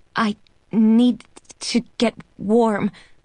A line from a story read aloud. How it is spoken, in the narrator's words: I sputter through chattering teeth